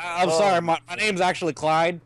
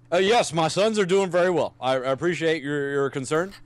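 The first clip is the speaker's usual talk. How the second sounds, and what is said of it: Imitates another person's voice. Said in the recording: “I knew this guy was an impersonator from the beginning ... We had an Obama impersonator call on the show.”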